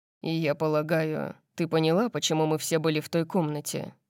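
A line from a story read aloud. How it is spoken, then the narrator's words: Asked grimly. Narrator (Russian): мрачно спросил он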